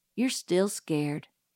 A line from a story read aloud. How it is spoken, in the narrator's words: murmured Dill patiently